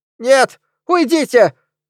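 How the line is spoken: Old gentleman's falsetto wail. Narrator (Russian): фальцетом завопил почтенный джентльмен

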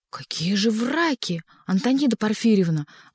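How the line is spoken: Upset exclamation. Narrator (Russian): воскликнул огорченный недоверием супруги писателя Боба

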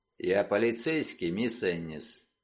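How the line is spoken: Man's voice. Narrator (Russian): мужским голосом, сказавшим

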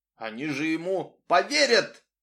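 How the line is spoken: Dejected exclamation. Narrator (Russian): воскликнул приунывший Джулс Харлоу

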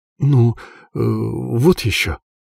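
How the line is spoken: Confused mumbling. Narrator (Russian): забормотал он растерянно

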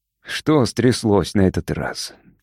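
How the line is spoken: Heavy sigh. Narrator (Russian): тяжело вздохнул Михаил Артемович

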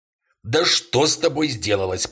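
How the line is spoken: Sharp shout. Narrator (Russian): прикрикнул на него Ивейс

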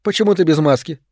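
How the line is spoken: Plain question. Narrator (Russian): спросила она

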